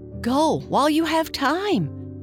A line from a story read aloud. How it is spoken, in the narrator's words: cried the moonbeam